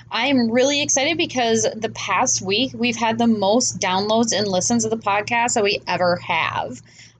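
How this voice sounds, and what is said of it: Stuffy, congested voice. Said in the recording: “I apologize if I sound a little stuffy. ... I'm a little stuffy today”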